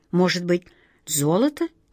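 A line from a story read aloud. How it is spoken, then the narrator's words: Uncertain question. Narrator (Russian): неуверенно спросил волшебник Алеша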